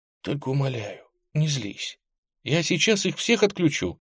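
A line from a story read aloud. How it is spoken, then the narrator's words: Whisper. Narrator (Russian): Сяо Цин прошептал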